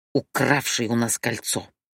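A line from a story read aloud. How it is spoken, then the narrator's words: Hissing. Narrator (Russian): прошипел диссонанс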